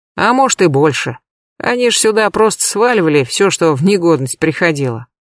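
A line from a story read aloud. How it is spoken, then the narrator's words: Snorting. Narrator (Russian): хмыкнул Сазонов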